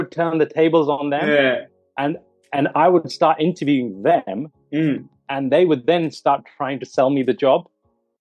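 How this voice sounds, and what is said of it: English accent. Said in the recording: “this English accent comes out”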